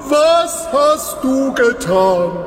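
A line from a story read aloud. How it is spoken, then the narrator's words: Shouting at someone. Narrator (German): schrie Balak ihn an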